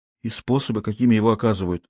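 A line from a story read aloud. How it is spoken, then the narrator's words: Bewildered repetition. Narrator (Russian): растерянно повторила она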